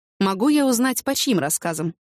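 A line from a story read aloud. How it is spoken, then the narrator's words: Plain question. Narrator (Russian): спросил он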